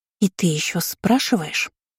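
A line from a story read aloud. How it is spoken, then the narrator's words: Hissing young girl. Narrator (Russian): прошипела младшенькая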